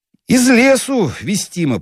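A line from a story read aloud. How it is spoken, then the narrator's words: Low boom. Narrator (Russian): прогудел светленький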